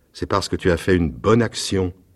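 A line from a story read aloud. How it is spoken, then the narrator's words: Plain. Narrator (French): dit le prince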